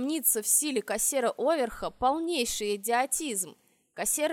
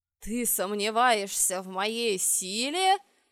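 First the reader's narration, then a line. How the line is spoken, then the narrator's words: Growled. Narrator (Russian): прорычал правитель Либерии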